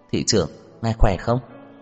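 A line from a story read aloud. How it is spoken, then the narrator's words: Smiling. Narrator (Vietnamese): Tiêu Đồng mỉm cười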